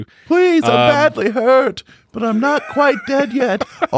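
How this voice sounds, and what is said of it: Put-on Irish accent. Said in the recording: “All said in an Irish accent.”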